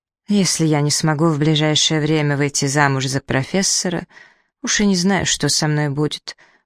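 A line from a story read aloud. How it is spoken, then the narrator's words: Glum mutter. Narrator (Russian): уныло пробормотала себе под нос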